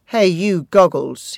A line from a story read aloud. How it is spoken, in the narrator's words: he said